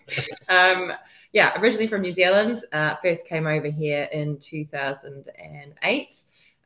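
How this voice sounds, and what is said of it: Slight New Zealand accent. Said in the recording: “you can tell by the accent, obviously not originally from the UK. I've got a slight Antipodean twang ... decided not to lose the accent”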